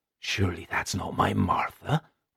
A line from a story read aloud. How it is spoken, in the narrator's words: whispered landlord